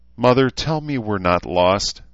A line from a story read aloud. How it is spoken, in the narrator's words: Rachel said shakily